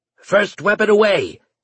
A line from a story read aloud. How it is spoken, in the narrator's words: bellowed Yokeson